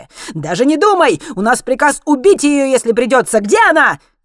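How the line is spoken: Shouted. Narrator (Russian): крикнул Злотон

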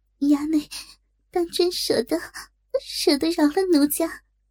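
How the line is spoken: Shy, tearful question. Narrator (Chinese): 若真止住哭，羞声问道

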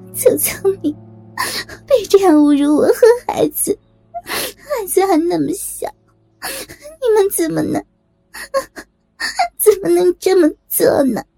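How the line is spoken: Laughing. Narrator (Chinese): 小伟笑着说

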